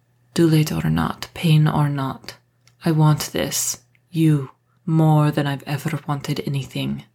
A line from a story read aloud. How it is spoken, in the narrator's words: Marcus said, his voice huskier than before